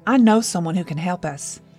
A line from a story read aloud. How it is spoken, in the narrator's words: she said